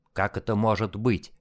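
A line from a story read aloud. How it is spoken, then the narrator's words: Muttering. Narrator (Russian): пробормотал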